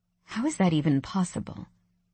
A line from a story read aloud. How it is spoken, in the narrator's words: I sighed